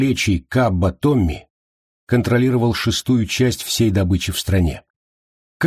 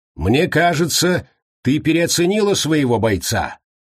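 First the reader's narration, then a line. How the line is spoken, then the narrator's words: Loud. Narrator (Russian): громко произнес Томми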